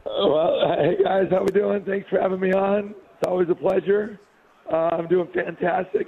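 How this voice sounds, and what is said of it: Worn-out, strained voice. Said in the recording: “my voice isn't doing so hot ... Do we need to update the supply of the Magic voice spray?”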